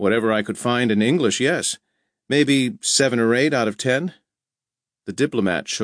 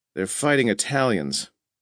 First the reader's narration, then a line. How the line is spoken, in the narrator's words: Sloat broke the silence to say hoarsely